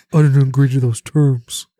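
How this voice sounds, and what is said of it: Shaq impression. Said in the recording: “good Shaq impression”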